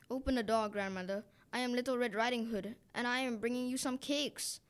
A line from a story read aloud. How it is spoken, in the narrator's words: the wolf cried